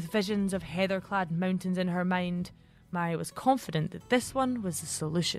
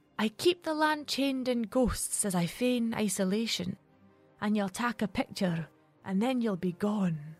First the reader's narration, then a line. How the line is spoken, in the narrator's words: she whispered, both to herself and the hundreds of fairies watching